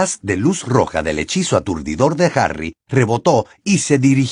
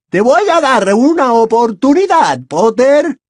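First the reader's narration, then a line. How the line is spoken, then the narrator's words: Shouted. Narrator (Spanish): gritó Bellatrix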